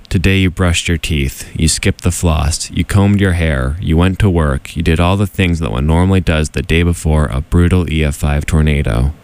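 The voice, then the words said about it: Tired deadpan delivery. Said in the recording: “I'm too tired to do it in a silly voice, so we're just going to do it deadpan.”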